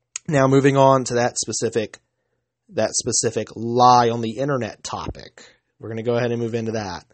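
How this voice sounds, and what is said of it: Hoarse voice. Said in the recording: “my voice is getting hoarse”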